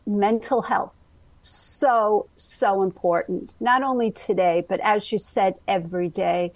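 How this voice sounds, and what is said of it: Brooklyn accent. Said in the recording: “you can hear my accent. It is my Brooklyn accent.”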